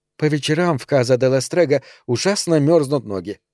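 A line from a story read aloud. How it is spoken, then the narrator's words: Plain. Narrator (Russian): сказала она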